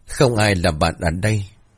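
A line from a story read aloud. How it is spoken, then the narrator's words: Cold reply. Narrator (Vietnamese): mình đáp giọng lạnh lùng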